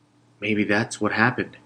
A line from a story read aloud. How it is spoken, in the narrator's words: Stacy murmured